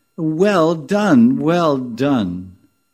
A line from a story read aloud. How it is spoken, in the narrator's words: the other gopis exclaim